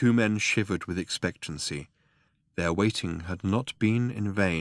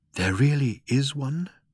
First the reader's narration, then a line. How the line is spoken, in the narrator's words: breathed Falk